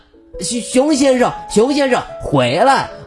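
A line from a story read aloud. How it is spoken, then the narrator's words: Little one shouting. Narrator (Chinese): 小兔子大喊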